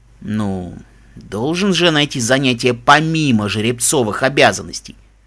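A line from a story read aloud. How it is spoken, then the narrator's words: Cheeky explanation. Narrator (Russian): пояснил прежним нахальным тоном Даггер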